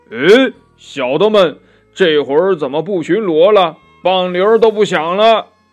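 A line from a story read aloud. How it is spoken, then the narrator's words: Demon king calling out. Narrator (Chinese): 忽然就听到这妖王在中厅房里叫道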